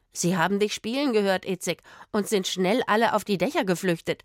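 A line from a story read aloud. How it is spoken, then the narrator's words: Mocking. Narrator (German): spottete der Rothaarige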